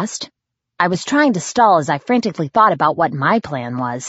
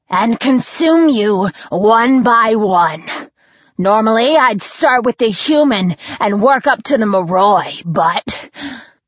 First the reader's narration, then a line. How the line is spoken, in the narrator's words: Sonya snarled